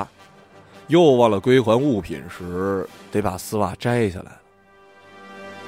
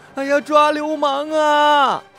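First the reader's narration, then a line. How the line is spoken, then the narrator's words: Desperate shouting. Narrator (Chinese): 女人不顾一切的大喊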